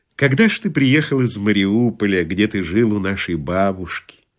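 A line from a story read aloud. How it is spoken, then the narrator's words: Gentle question. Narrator (Russian): ласково спросил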